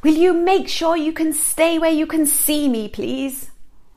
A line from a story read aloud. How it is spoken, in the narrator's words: yell at the kids